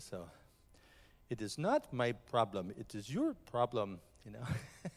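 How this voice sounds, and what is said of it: Put-on imitation of someone's accent. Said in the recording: “I was challenged this morning if I could do a Matthews accent. So I'm not sure, but I'll give it my best effort... I did better earlier.”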